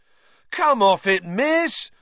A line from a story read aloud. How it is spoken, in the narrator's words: howled Fred